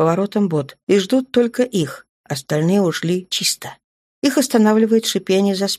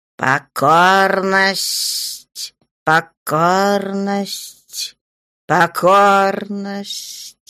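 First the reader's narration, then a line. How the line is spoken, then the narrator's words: Growling like beasts. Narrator (Russian): Темные рычат, как звери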